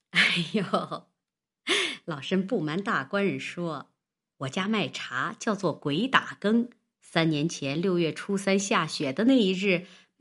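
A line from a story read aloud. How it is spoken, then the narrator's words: Hearty laughter. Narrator (Chinese): 王婆哈哈的笑起来，道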